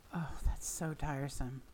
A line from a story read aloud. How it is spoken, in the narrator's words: Crowley sighed